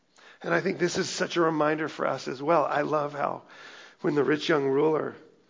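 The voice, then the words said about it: Strained, fading voice. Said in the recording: “I'm losing my voice a little bit”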